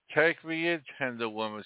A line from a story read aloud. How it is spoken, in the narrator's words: sighed the snake